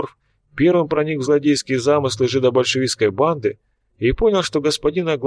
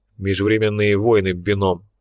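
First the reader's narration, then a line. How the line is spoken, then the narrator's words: Displeased grumble. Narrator (Russian): пробурчал Лунин, которому эта идея чрезвычайно не понравилась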